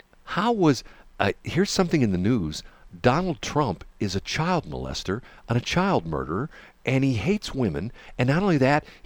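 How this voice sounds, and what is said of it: Mock NPR radio host voice. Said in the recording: “my NPR voice ... Let's do the show like we're on NPR.”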